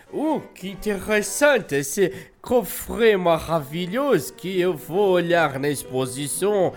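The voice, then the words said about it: Put-on French accent. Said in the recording (Portuguese): “bota o sotaque francês”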